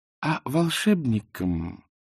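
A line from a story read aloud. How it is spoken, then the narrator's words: Sweet, smiling retort. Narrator (Russian): улыбнувшись, сладким голосом парировала Канина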